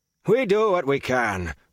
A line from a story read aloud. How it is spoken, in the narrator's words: Flan barked